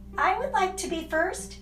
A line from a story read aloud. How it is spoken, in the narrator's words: she said in her breathless high voice